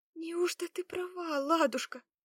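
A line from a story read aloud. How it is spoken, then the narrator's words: Terrified babbling. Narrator (Russian): с ужасом в глазах пролепетала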